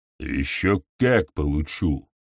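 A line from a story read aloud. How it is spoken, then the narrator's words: Growled. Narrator (Russian): прорычал Дрючок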